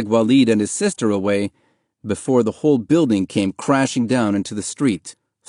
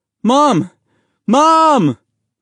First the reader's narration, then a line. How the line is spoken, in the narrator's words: Mahmoud yelled